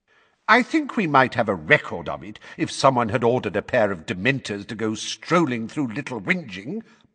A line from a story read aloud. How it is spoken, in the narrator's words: barked Fudge